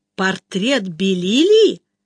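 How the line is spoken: Exclaimed. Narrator (Russian): воскликнул Чарли

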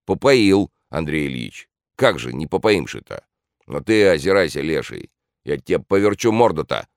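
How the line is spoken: Angry shout. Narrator (Russian): крикнул сердито

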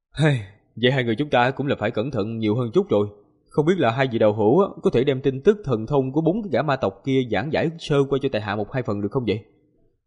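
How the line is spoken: Pensive, sighing. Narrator (Vietnamese): Ngân Quang tiên tử có điều suy nghĩ, thở dài một tiếng rồi nói

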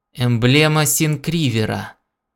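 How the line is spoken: Exclaimed. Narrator (Russian): воскликнул Гордон

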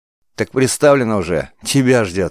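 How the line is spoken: Short laugh. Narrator (Russian): хохотнул первый

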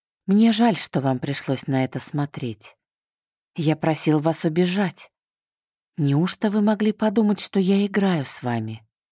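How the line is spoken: Soft, in one breath. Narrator (Russian): Мягко сказал Мишель на одном выдохе

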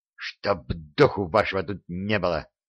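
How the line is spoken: Hissing. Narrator (Russian): Дарамир прошипел

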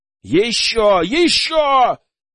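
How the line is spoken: Shouting. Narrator (Russian): кричал я

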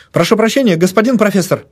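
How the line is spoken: Babbling apology. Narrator (Russian): залепетал

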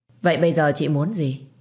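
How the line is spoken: Cold, scornful. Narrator (Vietnamese): Tôi liền cười nhạt

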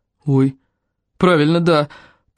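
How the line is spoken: Mumbling. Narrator (Russian): промямлил он

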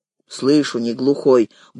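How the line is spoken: Grumbled. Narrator (Russian): буркнул тот

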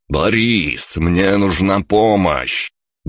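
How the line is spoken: Frightened hiss. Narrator (Russian): услышал испуганное шипение

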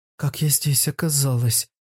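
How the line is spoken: Stunned whisper. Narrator (Russian): прошептала Ирвиня, ошеломленно

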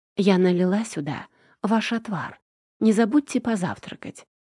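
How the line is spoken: Whispered. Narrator (Russian): прошептала Кэти

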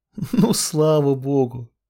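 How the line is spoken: Nervous laugh. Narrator (Russian): Нервно рассмеялась

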